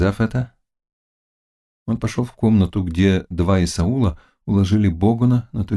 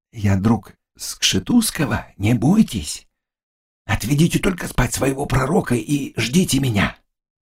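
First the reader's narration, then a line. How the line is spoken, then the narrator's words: Quick and quiet. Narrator (Russian): Заглоба сказал быстро и тихо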